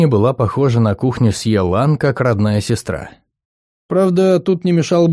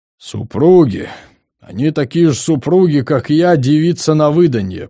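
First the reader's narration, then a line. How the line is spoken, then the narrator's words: Grumbling old woman. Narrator (Russian): проворчала старуха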